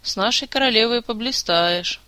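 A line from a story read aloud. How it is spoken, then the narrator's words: Heavy sigh. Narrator (Russian): тяжко вздохнула маркиза Ванчир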